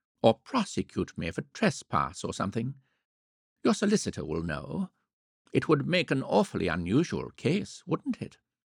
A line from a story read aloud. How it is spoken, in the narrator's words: went on in an interested voice